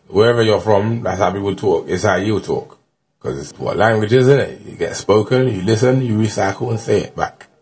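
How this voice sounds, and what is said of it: Cockney accent. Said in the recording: “I talk Cockney. ... I'm from the East End, people talk Cockney.”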